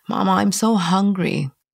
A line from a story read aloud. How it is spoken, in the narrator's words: Kyle whining